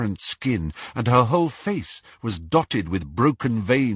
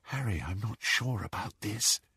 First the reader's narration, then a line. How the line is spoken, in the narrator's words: breathed Hermione